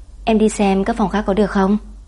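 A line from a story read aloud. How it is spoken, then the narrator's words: Polite. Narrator (Vietnamese): Nam Vân lịch sự nói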